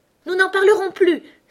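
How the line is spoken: Trembling mouse exclaiming. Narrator (French): s'écria la souris qui tremblait jusqu'au bout de la queue

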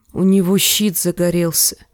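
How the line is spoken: Quiet. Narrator (Russian): тихо выговорил Джендри

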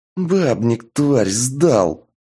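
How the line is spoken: Hiss. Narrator (Russian): прошипел Шуст

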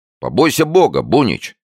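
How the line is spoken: Shout. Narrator (Russian): закричал Гамазин

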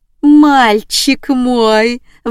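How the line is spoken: Howling woman. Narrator (Russian): взвыла она

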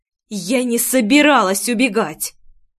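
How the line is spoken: Angry, through gritted teeth. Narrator (Russian): Зло процедила

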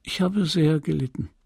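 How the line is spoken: Sad. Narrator (German): sagte, traurig

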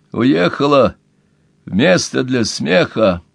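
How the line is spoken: Hoarse rasp, laughing. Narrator (Russian): прохрипел Пол и сам засмеялся

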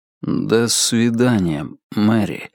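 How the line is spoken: Slow. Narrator (Russian): медленно произнес он

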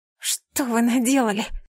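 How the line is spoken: Hoarse wheeze. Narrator (Russian): просипела

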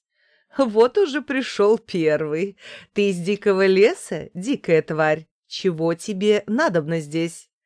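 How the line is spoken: Woman, laughing. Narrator (Russian): женщина сказала, смеясь

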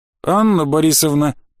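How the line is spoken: Hesitant objection. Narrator (Russian): попытался возразить офицер, но как-то неуверенно

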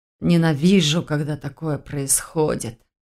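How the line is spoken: Muttered. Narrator (Russian): пробормотал он

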